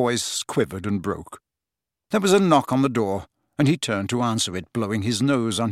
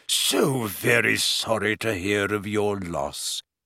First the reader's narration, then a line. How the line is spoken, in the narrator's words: he said in a deep, grave voice